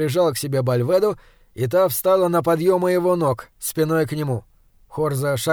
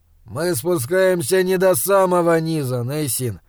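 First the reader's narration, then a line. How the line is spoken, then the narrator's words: Sighing. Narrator (Russian): вздохнул Хорза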